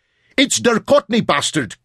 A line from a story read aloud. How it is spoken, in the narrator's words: bellowed